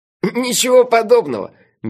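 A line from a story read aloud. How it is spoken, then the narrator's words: Sudden laugh. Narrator (Russian): Мелифара неожиданно рассмеялся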